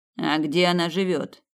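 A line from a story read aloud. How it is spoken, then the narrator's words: Plain. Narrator (Russian): спросил Снейдер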